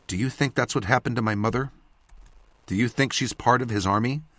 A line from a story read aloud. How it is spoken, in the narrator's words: asked quietly